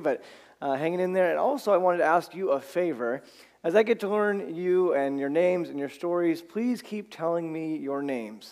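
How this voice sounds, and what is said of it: Slightly raspy, allergy-affected voice. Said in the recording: “apologize for my voice this morning ... some nice allergies ... so I'm a little raspy”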